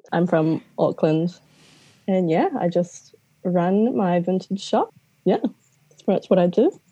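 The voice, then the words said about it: New Zealand accent. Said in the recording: “I'm from New Zealand, if you can't tell by the Kiwi twang.”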